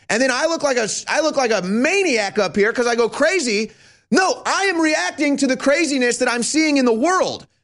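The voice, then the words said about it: Yelling, loud agitated voice. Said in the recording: “sorry for yelling”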